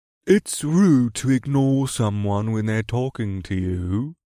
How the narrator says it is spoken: the voice said in an extremely dignified tone

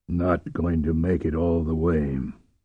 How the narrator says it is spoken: muttered Bothari

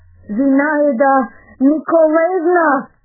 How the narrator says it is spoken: shouted imploringly

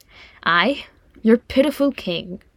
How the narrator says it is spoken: snorted Thorin

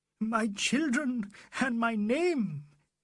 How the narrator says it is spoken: he gasped, his wings broken

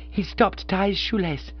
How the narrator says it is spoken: cried gaspingly as before

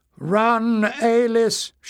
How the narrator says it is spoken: shouted Rosnan as he prepared for death

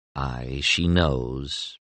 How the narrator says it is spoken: murmured Dez

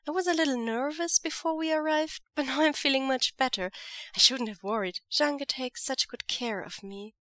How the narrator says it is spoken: he says sweetly

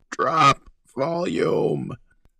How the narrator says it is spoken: croaked

